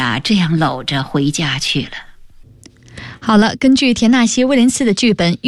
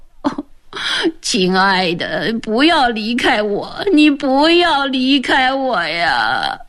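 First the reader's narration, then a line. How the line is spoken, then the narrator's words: Crying, pleading. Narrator (Chinese): 斯坦利哭了起来，嘴里不住地说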